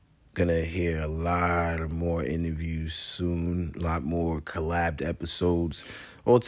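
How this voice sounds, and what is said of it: Usual voice. Nothing is said of it.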